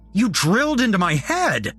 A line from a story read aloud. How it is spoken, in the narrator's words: I shouted